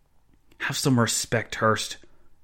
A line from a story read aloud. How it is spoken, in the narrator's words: Joseph Zahn hissed